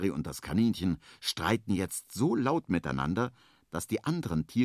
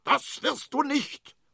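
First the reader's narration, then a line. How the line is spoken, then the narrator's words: Angry shout. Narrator (German): schreit Henry zornig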